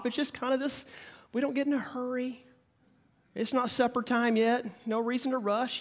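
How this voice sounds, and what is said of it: Slow Oklahoma drawl. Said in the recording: “sounds like an Okie, they kind of have that slow Texas drawl like this... it's not over the top”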